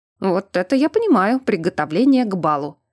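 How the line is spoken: Amused snort. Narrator (Russian): хмыкнул чертяка Анатариус

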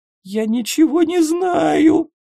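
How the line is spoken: Whimpering. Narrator (Russian): хныкала Снежана

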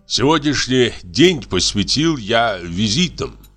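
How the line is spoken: Plain. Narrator (Russian): сказал он мне

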